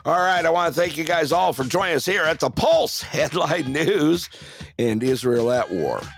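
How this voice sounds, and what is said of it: Hoarse, strained voice. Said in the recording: “before I lose my voice completely”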